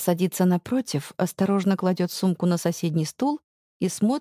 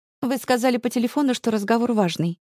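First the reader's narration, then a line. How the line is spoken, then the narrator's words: Sharp tone. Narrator (Russian): резко говорит она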